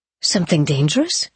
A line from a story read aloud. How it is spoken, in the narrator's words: asked in an apprehensive tone